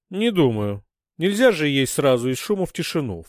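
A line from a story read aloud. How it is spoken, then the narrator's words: Snort. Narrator (Russian): фыркнула Лерма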